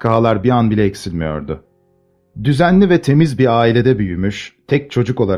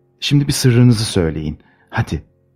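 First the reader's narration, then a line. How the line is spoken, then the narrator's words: Whispering. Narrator (Turkish): diye fısıldadı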